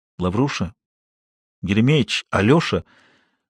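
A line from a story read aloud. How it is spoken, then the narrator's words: Trembling whisper. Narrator (Russian): Губы Скобеева задрожали, голос упал до шепота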